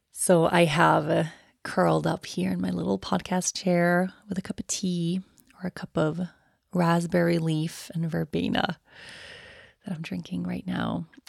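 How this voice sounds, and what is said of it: Tired, low-energy voice. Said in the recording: “you can probably hear it in my voice, just tired”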